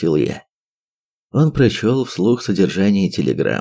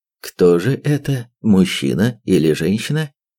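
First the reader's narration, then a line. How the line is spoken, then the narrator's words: Plain. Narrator (Russian): спросил я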